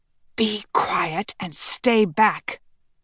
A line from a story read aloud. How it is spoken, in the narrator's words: Raphael hissed